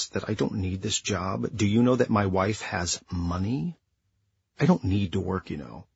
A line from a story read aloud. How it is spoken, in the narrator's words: he hissed